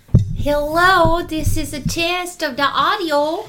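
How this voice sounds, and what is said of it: Put-on wistful Minnesotan-like accent. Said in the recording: “What accent is this that you're doing today? ... Is this like wistful Minnesotan?”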